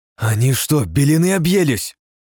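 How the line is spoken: Angry outburst. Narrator (Russian): зло вспыхнула Потемкина

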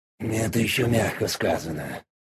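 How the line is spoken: Grumbled. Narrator (Russian): буркнул сбоку Дориан

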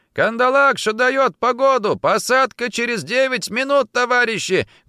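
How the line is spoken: Helicopter pilot shouting from cockpit. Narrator (Russian): крикнул из кабины вертолетчик

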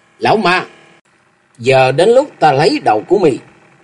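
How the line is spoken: Loud shout. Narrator (Vietnamese): Bố Châu hét to lên

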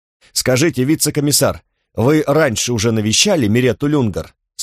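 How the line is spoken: Plain. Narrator (Russian): спросил другой

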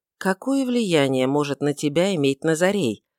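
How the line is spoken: Calm interruption. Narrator (Russian): прервал его Мельхиор спокойно

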